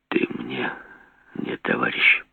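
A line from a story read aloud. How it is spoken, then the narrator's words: Quiet. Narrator (Russian): сказал тихо Жеглов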